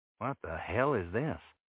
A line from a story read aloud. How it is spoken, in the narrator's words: I mumbled